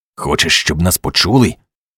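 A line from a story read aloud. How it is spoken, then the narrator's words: Irritated hiss, man. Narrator (Ukrainian): роздратовано засичав він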